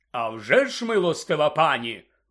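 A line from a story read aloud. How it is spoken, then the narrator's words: Exclamation. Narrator (Ukrainian): вигукнув сер Кадоган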